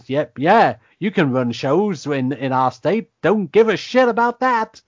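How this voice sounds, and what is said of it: Put-on Southern US accent. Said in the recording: “there's our southern accent back again... the deep south of Nebraska coming back”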